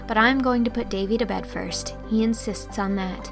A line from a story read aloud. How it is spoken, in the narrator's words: agreed Anne gaily